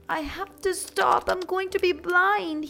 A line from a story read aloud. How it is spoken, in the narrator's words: he cried